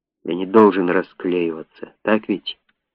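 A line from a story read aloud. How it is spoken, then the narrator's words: Muttering under breath. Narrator (Russian): бормоча себе под нос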